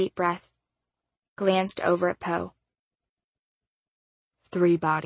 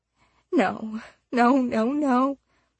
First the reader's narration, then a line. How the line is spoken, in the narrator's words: her mom whimpered